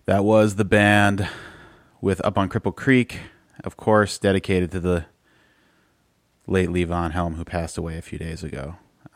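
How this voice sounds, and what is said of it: Sick-sounding voice. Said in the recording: “hear it in my voice, I'm pretty sick.”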